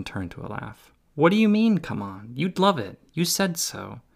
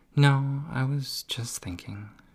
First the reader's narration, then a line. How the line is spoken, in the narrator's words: she murmured